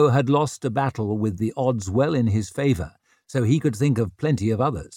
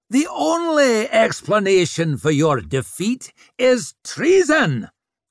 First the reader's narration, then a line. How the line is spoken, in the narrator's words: screeched Swarbrick